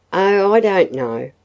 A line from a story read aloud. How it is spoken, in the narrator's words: sighed Hazel